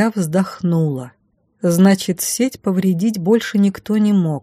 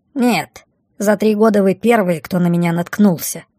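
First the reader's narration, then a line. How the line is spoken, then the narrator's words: Muffled snort. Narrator (Russian): фыркнула из-под платья Блямба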